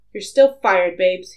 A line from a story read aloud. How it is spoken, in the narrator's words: he snapped into the phone, with much less heat than before